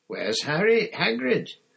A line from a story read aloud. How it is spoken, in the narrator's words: Harry repeated loudly